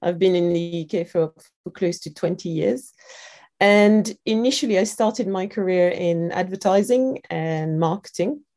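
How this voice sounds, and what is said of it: French accent in English. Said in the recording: “I'm sure you can tell from my accent, I'm a French Londoner.”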